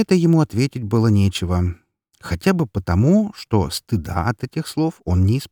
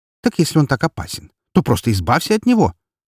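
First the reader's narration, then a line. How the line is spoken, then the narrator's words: Unrestrained exclamation. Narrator (Russian): Уже не сдерживаясь, воскликнула она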